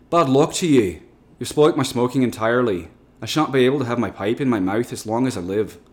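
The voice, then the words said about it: Bad put-on Irish accent. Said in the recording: “Sorry for the bad Irish accent”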